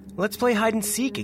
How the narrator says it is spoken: exclaimed Rachel

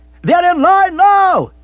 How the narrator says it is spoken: yelled the radio, like a costermonger calling attention to his blood oranges

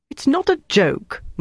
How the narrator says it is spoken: Mark said indignantly

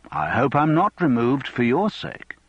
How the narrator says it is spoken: said Reynolds calmly

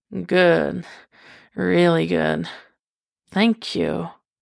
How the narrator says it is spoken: he slurs out

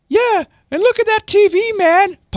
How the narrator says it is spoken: piped up Cece from behind Andy

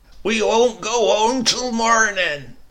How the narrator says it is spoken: my Uncle Silas bawling

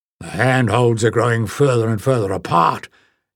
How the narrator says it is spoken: gasped Varda, hauling himself up to a new ledge

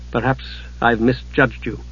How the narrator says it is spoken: Palin said stiffly

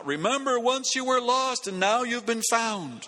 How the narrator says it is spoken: Already half a block down the street, the evangelist cries out

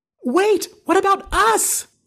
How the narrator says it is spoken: Holly screams

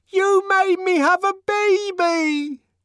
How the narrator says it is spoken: screamed above the uproar

